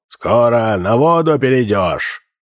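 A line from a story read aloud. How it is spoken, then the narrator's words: Growled. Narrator (Russian): Джип зарычал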